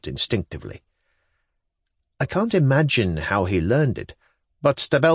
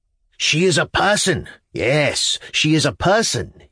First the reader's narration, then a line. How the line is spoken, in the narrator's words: he exclaimed